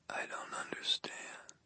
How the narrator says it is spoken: She whispered, barely audible

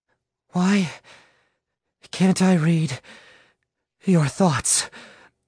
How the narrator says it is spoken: Mary rasped out between ragged breaths

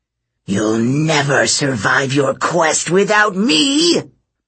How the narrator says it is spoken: Medea growled

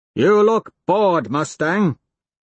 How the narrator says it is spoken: I shout out with chattering teeth

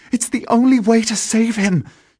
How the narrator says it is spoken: gasped

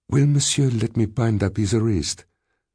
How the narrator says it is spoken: she said in a professional tone

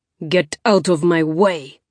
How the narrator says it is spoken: He snarled up at the driver

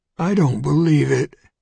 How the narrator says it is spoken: Finn croaked

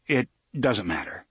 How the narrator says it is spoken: Roland said

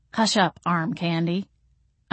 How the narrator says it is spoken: I muttered

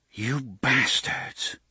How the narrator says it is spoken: she murmured

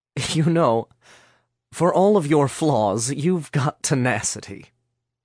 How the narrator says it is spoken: Chad said, chuckling to himself

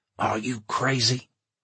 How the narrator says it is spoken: Charlie whispered hoarsely

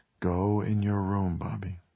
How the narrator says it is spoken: Ted said quietly

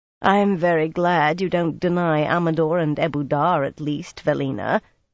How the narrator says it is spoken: Siobhan said dryly, and she could be very dry indeed

